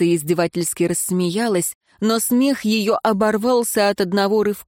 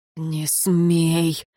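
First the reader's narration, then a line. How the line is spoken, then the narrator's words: Muffled stern command. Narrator (Russian): глухо велел смотритель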